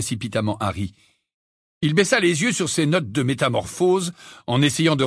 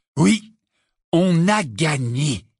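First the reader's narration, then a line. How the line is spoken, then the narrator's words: Slow, savoring. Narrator (French): dit lentement Ron en savourant ses mots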